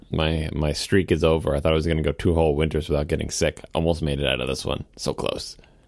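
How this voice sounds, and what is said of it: Congested voice from a cold. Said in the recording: “I have a cold?”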